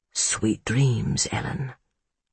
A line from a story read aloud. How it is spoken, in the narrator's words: he whispered